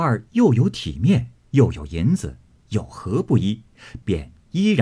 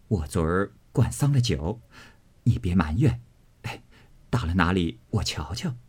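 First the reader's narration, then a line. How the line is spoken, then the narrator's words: Laughing. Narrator (Chinese): 笑道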